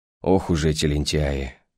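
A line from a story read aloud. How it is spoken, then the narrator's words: Matching sigh. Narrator (Russian): в тон мне вздохнул голос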